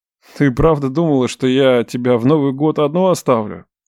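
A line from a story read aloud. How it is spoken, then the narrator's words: Hoarse question. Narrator (Russian): Хрипло уточнил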